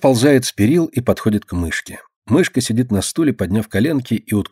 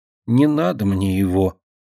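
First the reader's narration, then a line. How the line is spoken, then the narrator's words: Quiet reply. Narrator (Russian): тихо отвечает Динка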